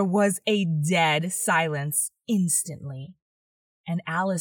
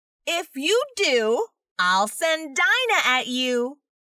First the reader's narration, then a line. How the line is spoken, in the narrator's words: Alice called out as loud as she could